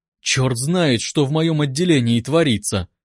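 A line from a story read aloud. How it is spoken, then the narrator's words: Groaning. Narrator (Russian): простонал он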